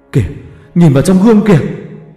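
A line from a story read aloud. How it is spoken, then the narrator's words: Panicked scream. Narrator (Vietnamese): tiếng hét thất thanh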